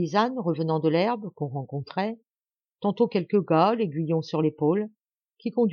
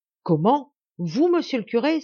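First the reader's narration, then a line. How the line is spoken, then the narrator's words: Joyful exclamation. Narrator (French): s'écria tout joyeux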